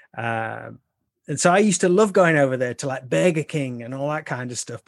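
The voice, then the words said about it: English Midlands accent. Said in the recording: “over here in the UK, from where I'm from, I'm like right in the middle of the UK in the what we call the Midlands... I consider it to be like a really, what we call a really common accent”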